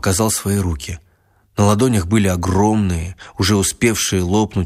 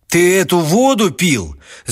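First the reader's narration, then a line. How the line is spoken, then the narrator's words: Shouting. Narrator (Russian): закричал Степан Михайлович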